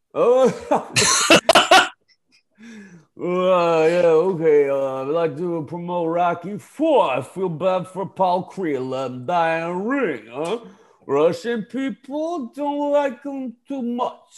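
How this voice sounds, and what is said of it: Impression of the Rocky character. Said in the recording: “I'm really loving the Rocky impersonation.”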